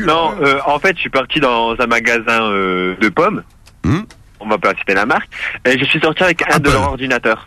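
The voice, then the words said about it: Put-on Marseille French accent. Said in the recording (French): “je prends le petit accent marseillais... Ah bah oui, je prends jusqu'au bout.”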